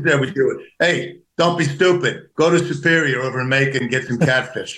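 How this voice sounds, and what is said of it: Thick New Jersey accent. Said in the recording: “thick New Jersey accent”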